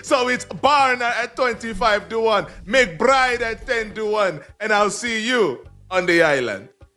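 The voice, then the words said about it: Island accent. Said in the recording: “It's just like the way you say some words are just like that ... It's my island accent ... It's very good.”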